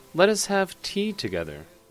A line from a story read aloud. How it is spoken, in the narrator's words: said Charpat kindly